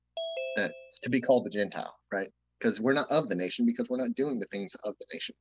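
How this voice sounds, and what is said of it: Strained, fading voice. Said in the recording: “I'm losing my voice here”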